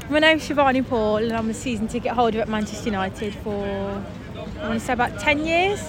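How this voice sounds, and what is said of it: Birmingham / Black Country accent. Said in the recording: “Your accent is... from ... Birmingham ... from near Dudley, as you can tell, because my accent”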